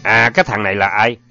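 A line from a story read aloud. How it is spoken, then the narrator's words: Cold, murderous. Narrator (Vietnamese): hỏi, giọng lạnh lùng như sẵn sàng giết người nếu cảm thấy cần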